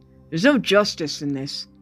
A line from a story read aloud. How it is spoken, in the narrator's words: One of Halleck's aides down the table snapped